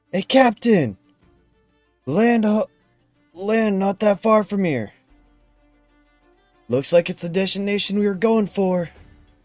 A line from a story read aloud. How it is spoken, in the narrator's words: the guy on top kind of yells down to you guys